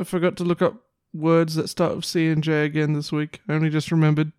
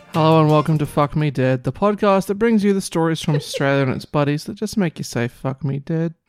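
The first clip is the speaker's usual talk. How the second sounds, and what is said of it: Flat, defeated, unenthusiastic tone. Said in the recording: “Why do you sound so defeated?”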